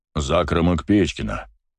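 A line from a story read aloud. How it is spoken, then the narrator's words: Man's deep bass. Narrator (Russian): пробасил мужчина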